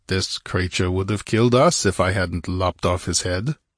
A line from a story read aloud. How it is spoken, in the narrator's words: he growled